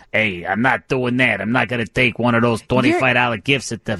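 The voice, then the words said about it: Tough bad guy character voice. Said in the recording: “do my bad guy voice.”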